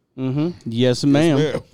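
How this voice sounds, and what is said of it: Put-on southern accent. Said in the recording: “With the southern accent.”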